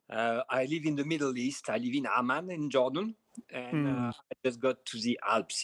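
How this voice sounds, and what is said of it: French accent. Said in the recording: “So I'm French. Maybe as you can hear from my accent,”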